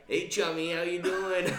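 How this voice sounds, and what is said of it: Put-on Maine accent. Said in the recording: “he would talk to me in his Maine accent”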